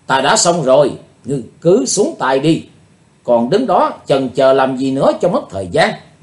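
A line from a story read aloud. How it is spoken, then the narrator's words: Woman's loud shout. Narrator (Vietnamese): cô gái áo trắng hét lớn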